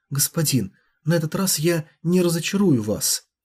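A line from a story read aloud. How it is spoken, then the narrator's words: Light, soft. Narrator (Russian): легко и мягко сказала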